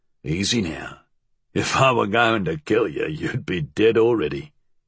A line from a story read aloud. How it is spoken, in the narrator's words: he chuckled